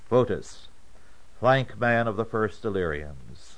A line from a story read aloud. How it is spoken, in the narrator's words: called out